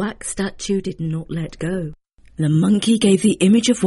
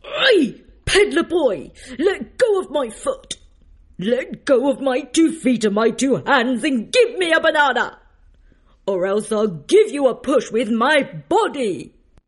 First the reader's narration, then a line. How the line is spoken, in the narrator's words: The monkey shouted